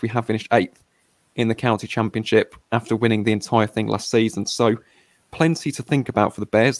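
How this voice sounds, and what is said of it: Hoarse, strained voice from screaming. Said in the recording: “my voice has taken an absolute pounding. I was screaming”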